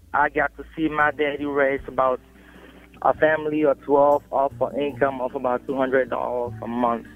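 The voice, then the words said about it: Cameroonian West African accent. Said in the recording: “If you can't tell from my accent, I'm not originally from around here. I grew up in Cameroon, West Africa.”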